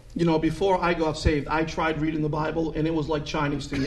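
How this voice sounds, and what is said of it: Noticeable non-Texan accent. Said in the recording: “you sometimes sound to me like Chinese or something ... that delightful accent ... which certainly isn't a Texas accent”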